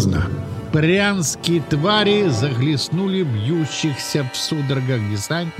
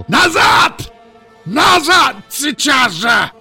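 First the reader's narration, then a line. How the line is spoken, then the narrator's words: Shouted. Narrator (Russian): Керк закричал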